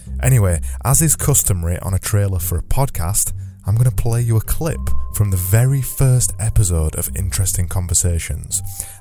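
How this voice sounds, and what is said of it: English accent. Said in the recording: “I'm English, as you probably realise with my accent”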